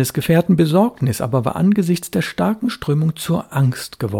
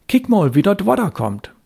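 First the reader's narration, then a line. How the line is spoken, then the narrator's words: Calling. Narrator (German): rief er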